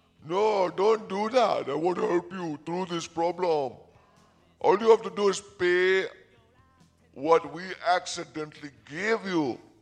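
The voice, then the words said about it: Little sticky character voice. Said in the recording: “he says in his little sticky voice.”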